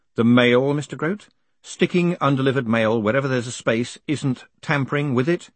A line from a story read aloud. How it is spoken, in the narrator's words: he added sternly